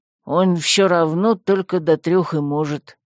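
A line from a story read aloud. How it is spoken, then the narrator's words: Grumbled. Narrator (Russian): пробурчал посох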